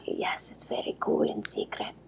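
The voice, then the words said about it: Whispering with a put-on accent. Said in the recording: “You're whispering in with an accent.”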